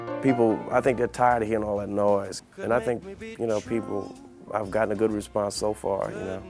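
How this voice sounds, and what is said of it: Strong regional accent. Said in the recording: “That is a strong accent.”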